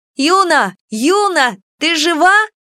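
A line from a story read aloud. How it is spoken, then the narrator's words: Loud shouting. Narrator (Russian): громко кричала Кико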